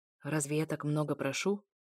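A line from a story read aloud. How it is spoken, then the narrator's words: Barely audible question. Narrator (Russian): еле слышно спросил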